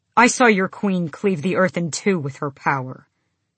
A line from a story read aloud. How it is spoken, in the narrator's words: Kaol said